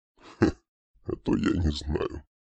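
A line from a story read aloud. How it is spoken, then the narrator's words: Dragon's smirking grunt. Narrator (Russian): Хмыкнул дракон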